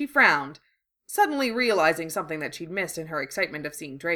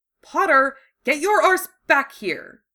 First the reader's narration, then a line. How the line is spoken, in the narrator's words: Draco snapped